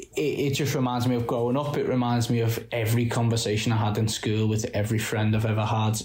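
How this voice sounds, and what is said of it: Liverpool-area English accent. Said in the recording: “I'm from just outside Liverpool, but like my accent speaks enough to it”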